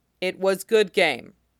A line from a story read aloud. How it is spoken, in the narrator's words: Ilya says stiffly